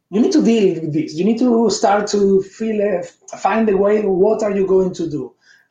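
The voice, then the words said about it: Speaks with a foreign accent. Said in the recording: “your wonderful accent ... I have a good accent”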